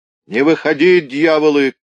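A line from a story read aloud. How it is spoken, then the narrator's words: Sudden furious shout. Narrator (Russian): крикнул вдруг в какой-то ярости молчавший все время печник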